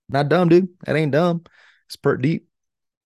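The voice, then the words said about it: Put-on Texas accent. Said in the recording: “Is that your Texas accent?”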